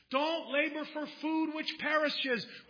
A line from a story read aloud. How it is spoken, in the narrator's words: he cried out in the streets